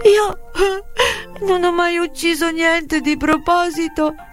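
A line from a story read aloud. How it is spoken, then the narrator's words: Sobbing woman. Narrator (Italian): singhiozzava lei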